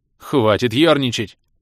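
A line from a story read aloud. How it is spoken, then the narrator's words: Barked, feeling awful. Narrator (Russian): рявкнул Атрап, чувствуя себя полным дерьмом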